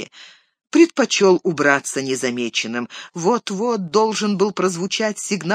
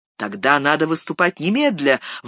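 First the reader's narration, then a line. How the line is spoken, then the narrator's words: Exclamation. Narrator (Russian): воскликнул Йомер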